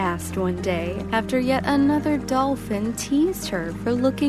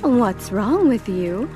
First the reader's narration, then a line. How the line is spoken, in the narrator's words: her mother exclaimed